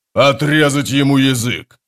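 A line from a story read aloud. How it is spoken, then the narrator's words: Growled. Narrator (Russian): прорычал Таблакай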